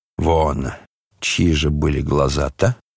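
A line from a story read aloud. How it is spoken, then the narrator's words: Suspicious mutter. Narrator (Russian): подозрительно пробормотал Рогожин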